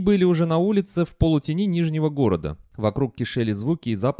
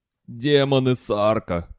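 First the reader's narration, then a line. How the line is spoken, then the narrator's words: Groan. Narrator (Russian): простонал Терренс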